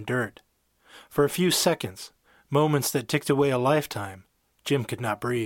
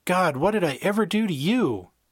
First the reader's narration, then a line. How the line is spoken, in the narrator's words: cried out